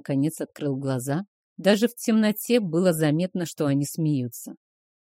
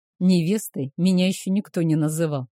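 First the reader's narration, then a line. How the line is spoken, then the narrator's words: Snorted. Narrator (Russian): хмыкнул он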